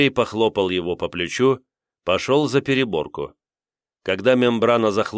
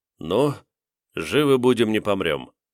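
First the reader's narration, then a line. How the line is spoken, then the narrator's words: Sighing. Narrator (Russian): вздохнул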